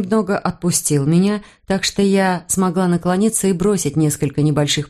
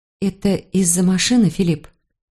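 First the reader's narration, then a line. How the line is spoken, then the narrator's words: Soft question. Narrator (Russian): Я мягко спросила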